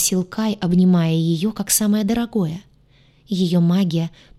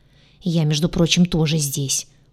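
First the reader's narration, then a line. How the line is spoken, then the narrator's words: Grumbling. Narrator (Russian): проворчал Гадюша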